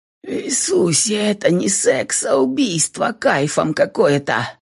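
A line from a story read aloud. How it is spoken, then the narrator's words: Hoarse muffled mumble. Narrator (Russian): Пробубнил сипло в изгибшей Кэти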